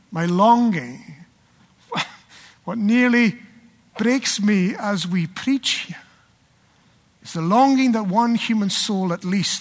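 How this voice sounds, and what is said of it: Scottish accent. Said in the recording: “a fantastic Scottish accent”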